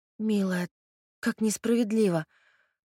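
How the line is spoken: Vindictive. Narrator (Russian): мстительно произнесла

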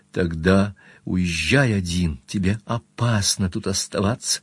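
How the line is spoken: Passionate whisper in ear. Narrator (Russian): Она страстно шепнула на ухо

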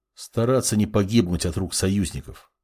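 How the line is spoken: Quiet reply. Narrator (Russian): тихо ответил маг

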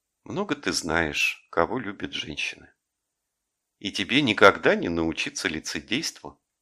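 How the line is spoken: Affectionate, gentle. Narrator (Russian): сказала ласково

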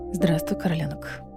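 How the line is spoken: Whispered. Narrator (Russian): прошептала

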